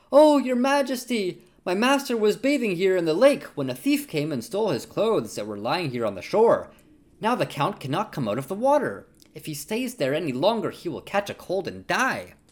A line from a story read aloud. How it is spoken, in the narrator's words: The cat cried out pitifully